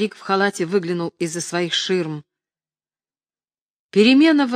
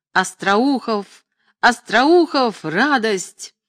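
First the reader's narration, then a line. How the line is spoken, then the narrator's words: Triumphant shout. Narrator (Russian): Он торжествующим голосом закричал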